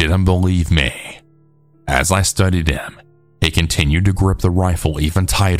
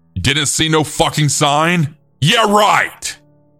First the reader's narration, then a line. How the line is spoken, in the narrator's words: The man ... yell